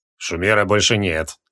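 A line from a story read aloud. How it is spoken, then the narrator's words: Gloomy. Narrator (Russian): мрачно ответил Криол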